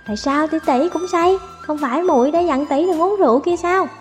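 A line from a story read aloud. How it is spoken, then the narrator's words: Whisper. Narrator (Vietnamese): Cô ta thì thầm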